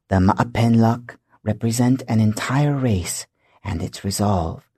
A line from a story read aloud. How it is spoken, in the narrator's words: Taqalu whispered